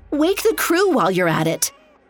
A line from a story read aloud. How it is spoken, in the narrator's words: snapped